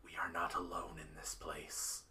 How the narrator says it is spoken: he will whisper

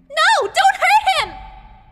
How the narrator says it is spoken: Ruto yelled

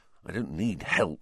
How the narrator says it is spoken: Ron whispered

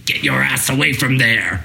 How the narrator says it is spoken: Loomis angrily whispers

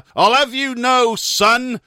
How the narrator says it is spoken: roared indignantly

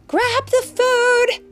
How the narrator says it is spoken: shouted Mom

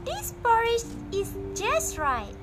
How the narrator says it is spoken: said happily

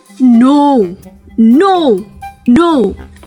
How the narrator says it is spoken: Bear roared

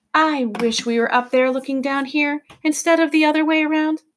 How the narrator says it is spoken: Lindy said wistfully

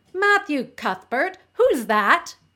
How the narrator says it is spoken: she exclaimed

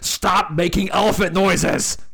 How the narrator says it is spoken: Mattingly, his face beat red, shoots up and screams

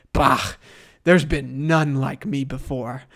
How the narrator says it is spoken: Doom chuckles, responding

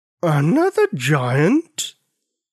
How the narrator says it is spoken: In a rumbly, thunder-like voice, she asked

